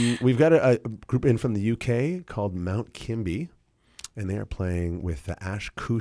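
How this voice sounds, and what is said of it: Usual voice. Nothing is said of it.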